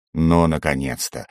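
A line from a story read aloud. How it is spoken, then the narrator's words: Delighted growl. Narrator (Russian): восторженно зарычал Варток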